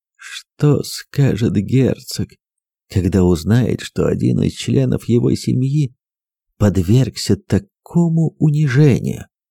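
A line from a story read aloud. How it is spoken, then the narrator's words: Whisper. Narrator (Russian): прошептал он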